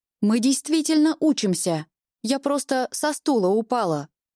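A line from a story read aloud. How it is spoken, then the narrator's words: Indignant shouting. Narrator (Russian): Возмущенно кричу я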